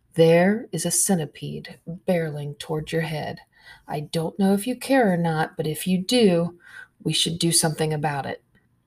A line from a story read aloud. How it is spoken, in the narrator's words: She says calmly